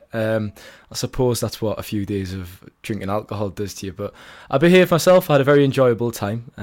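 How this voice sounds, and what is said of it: Rough, hoarse voice like a cold. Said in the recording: “You sound like you're a bit of cold at the moment. ... I sound a bit rough ... I sound a bit worse for wear”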